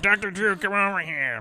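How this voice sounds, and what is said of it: Imitates another person's voice. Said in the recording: “That's my Adam Carolla impression.”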